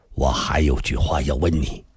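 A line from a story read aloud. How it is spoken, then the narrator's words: Low, tipsy. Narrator (Chinese): 他目光已朦胧，低声地说道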